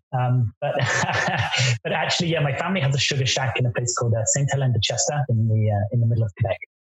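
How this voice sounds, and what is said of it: Speaks with a noticeable accent. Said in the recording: “despite my accent”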